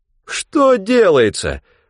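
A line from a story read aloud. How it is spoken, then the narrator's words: Exclaimed in feigned despair. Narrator (Russian): в притворном отчаянии воскликнул Хегланд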